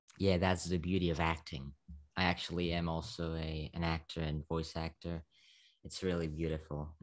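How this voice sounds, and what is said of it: Slovak accent in English. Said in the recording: “I'm still in Slovakia ... make my accent more kind of American ... I hear an accent, but it's nice”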